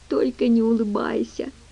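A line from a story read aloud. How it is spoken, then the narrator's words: Silent inner plea. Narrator (Russian): молча взмолилась Генри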